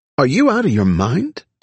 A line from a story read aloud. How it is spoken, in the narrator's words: Dino replied